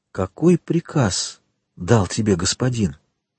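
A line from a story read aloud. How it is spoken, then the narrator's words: Barely audible question. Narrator (Russian): едва слышно спросила Селима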